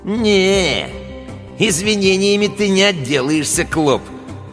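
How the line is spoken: Smirking drawl. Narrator (Russian): протянул Гусиныч, ухмыляясь

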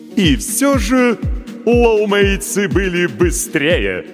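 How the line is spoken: Smug announcement. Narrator (Russian): объявил ведущий таким самодовольным тоном

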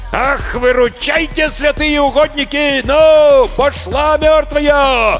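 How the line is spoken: Roaring. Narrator (Russian): Взревел Прошка

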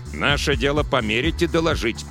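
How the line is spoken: Sharp shout after someone. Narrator (Russian): прикрикнул Робертс ему вслед

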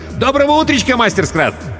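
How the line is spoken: Cheerful. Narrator (Russian): шустрый Алькат говорил весело

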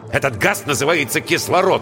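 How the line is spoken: Irritated. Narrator (Russian): раздраженно сказал Воронцов

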